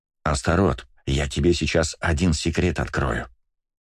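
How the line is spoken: Dramatic hissing whisper, microphone. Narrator (Russian): драматичным шепотом зашипел в микрофон я

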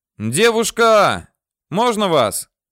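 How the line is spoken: Shout. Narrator (Russian): крикнул я ей

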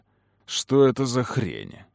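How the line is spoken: Dark echoing growl. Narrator (Russian): прорычал Кэллум, и что-то еще более мрачное эхом отозвалось в его голосе

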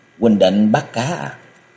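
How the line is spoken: Soft, smiling. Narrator (Vietnamese): Nàng mỉm cười rồi nhỏ nhẹ nói

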